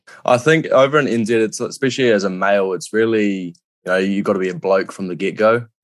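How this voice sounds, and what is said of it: New Zealand accent. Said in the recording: “we can hear an accent in your voice, so we know that you're a Kiwi”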